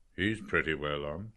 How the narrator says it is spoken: Professor McHugh said in a low voice

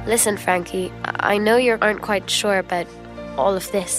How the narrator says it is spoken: said

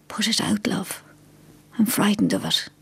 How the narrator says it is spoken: she whispered hoarsely

